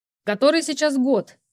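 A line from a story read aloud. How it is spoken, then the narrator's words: Shouting. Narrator (Russian): крикнул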